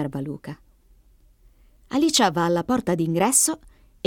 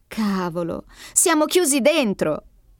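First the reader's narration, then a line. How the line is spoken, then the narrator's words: Exclaimed. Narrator (Italian): esclama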